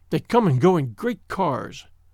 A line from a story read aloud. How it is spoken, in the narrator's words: she said bitterly